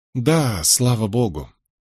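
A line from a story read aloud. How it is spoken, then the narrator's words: Low muttering. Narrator (Russian): Фрэнсис пробормотал, понизив голос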